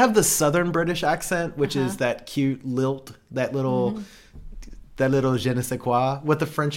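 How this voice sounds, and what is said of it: Usual voice. Nothing is said of it.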